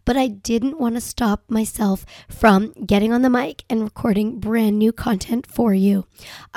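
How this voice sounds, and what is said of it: Voice sounds congested from a cold. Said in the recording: “in case you can't tell, I have a bit of a cold”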